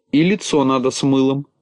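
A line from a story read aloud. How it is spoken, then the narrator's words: Plain. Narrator (Russian): сказала Синеглазка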